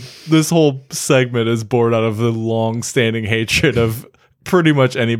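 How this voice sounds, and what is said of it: Usual voice. Nothing is said of it.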